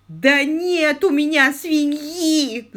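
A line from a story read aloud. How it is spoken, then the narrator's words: Howling. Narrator (Russian): взвыл сэр Грегори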